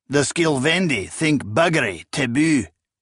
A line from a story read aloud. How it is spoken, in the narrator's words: General Imyonix exclaimed in his thick accent